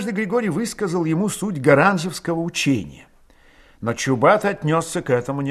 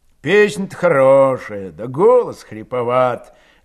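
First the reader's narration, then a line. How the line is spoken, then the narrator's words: Mocking, smiling. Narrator (Russian): говорил он, насмешливо улыбаясь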